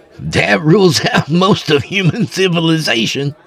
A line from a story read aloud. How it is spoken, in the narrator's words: Rudy said with a laugh